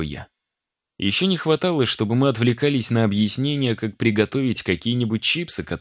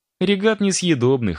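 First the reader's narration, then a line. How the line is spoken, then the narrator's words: Chuckling. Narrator (Russian): хохотнула Маша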